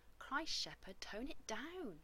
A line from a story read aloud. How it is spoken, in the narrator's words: Rodney whispered in his ear